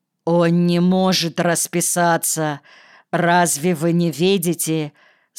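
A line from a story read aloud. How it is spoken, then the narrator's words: Stern. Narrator (Russian): строго сказал Ситников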